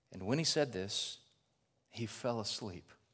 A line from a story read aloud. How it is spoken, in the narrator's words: so gently states